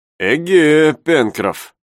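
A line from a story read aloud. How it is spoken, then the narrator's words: Slightly mocking. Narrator (Russian): сказал Наб слегка насмешливым тоном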